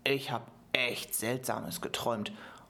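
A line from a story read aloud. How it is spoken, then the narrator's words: Murmuring. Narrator (German): murmelte Juan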